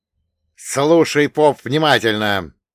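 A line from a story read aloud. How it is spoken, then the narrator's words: Angry, through gritted teeth. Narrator (Russian): злобно процедил Крутов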